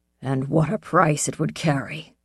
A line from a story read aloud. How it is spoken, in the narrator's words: Kanik said harshly